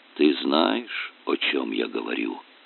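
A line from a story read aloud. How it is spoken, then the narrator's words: Quiet, abbot. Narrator (Russian): тихо произнес игумен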